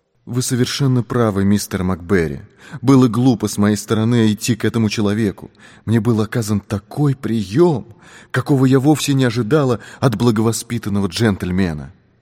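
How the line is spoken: Guilty, embarrassed tone. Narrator (Russian): виноватым тоном произнесла

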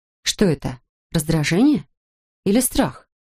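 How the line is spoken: Calm. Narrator (Russian): Она спокойно ответила

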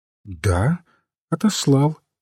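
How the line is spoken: Calm priest continuing. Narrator (Russian): спокойно продолжал священник

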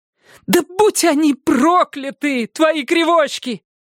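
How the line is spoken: Shouted. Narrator (Russian): закричала она

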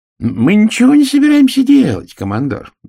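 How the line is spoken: Cheerful. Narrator (Russian): весело сказал чудакуля

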